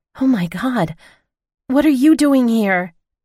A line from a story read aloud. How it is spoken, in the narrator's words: I cried